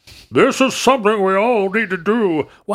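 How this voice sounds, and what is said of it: Bad Richard Nixon impression, Southern-sounding. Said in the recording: “I don't know why my Nixon is so bad. ... why am I in a Southern accent?”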